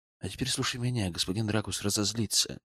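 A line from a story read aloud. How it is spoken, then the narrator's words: Quiet. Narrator (Russian): тихо произнес я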